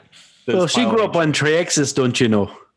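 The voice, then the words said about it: Put-on Minnesota accent. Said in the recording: “That's a Minnesota accent”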